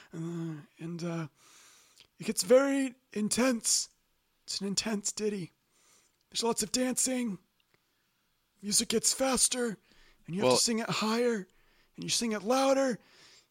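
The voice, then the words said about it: Strained, partly lost voice. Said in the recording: “my voice is not at its fullest capacity, and that's because I'm losing it a little bit”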